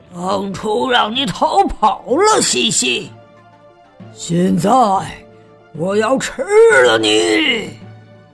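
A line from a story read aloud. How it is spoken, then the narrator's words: Low growling roar. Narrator (Chinese): 龙喷着火焰，低声嚎叫着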